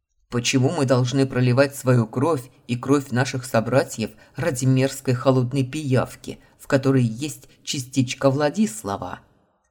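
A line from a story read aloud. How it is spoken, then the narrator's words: Growl, male. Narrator (Russian): Рыкнул один из мужчин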